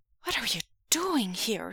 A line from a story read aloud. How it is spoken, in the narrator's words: Xishen asked anxiously